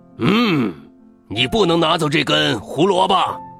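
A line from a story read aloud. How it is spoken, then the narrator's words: Fierce loud shout. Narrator (Chinese): 一只又高又大的坏兔子，大坏兔恶狠狠的大声喊着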